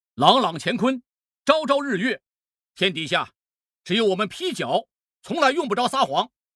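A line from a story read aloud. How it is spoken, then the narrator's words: Bold, loud, self-assured. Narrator (Chinese): 乃成胆子已经越来越正，姿态里甚至还多了些自命不凡，大声说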